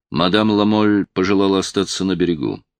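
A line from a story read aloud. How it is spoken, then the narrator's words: Plain. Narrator (Russian): сказал Роллинг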